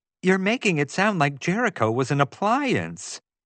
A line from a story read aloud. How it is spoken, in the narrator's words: Taffy exclaimed